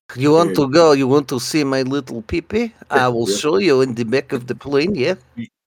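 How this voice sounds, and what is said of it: Put-on Russian accent. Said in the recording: “his Russian accent is very good”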